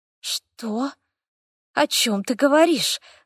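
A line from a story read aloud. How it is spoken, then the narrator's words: Muttering. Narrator (Russian): забормотал я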